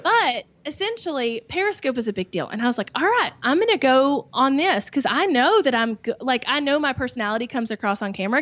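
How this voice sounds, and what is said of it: Southern American accent. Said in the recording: “how much they loved my accent, how much they loved my accent ... the sassy Southern online best friend”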